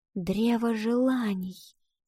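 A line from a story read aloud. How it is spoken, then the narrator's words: Child's whisper. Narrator (Russian): прошептала девочка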